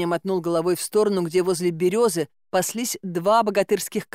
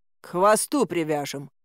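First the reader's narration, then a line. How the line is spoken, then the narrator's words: Grim promise. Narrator (Russian): мрачно пообещал Добрыня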